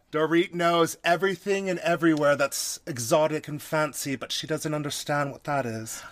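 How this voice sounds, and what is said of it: Put-on faintly British-tinged accent. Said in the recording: “Do I hear Dorit? ... I love your Dorit accent. ... act like I was in Britain for like a month, and then I just came back to the United States.”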